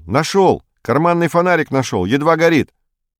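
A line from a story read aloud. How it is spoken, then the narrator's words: Shout. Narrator (Russian): Строкулев крикнул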